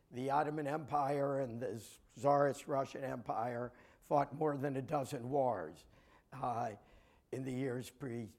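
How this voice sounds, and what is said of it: Raspy, hoarse voice. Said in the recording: “my raspy voice. I'm sorry, I had the unfortunate timing to come down with a bit of laryngitis.”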